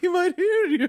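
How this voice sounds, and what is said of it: Impression of Emily as old lady. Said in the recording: “I love your Emily impression. ... I don't know why I've turned her into an old lady now. ... she's morphed.”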